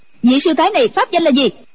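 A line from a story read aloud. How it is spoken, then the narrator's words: Woman shouting sharply. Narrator (Vietnamese): hoàng y mỹ nữ quát lên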